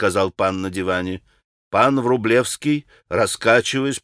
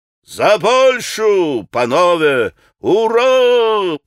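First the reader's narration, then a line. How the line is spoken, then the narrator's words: Shouting a toast. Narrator (Russian): прокричал Митя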